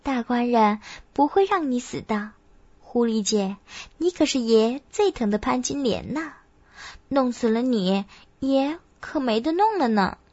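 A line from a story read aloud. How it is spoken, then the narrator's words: Laughing. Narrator (Chinese): 月琴…笑道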